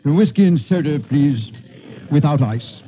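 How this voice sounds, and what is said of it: Precise English accent. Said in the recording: “in his precise English accent”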